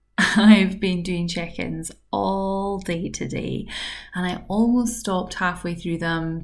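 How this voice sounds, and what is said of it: Very tired-sounding voice. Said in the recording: “my voice sounds very tired”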